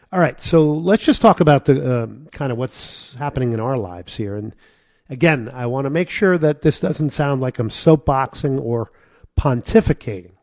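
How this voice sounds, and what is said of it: Hoarse, strained voice. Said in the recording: “I'm losing my voice here because of allergies.”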